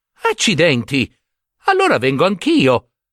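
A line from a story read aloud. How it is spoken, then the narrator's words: Exclaimed. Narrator (Italian): esclamò Giambabbeo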